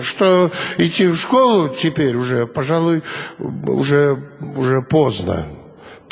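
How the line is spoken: Mumbling wooden puppet. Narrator (Russian): промямлил деревянный человечек

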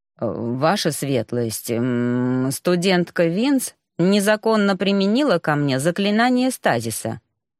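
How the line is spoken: Mumbled. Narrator (Russian): промямлил мужчина

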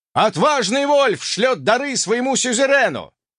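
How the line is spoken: Loud yell. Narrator (Russian): громко проорал непись

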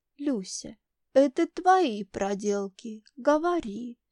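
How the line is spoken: Seemingly calm question. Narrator (Russian): По-видимому, спокойно спрашивает она

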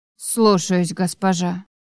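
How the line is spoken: Through gritted teeth. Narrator (Russian): ответила кухарка сквозь зубы

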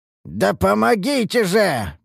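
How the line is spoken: Hoarse rasp. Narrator (Russian): прохрипел я

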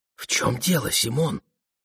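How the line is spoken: Whispered question, wife. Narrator (Russian): спросила жена шепотом

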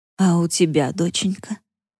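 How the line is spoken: Quiet question. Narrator (Russian): негромко спросила та

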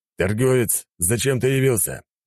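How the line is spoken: Rough, rude speech. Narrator (Russian): грубо проговорил

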